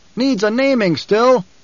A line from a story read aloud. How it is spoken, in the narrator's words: A voice from the troop called out